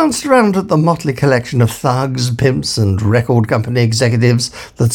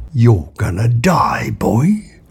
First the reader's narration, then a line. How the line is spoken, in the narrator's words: murmured quietly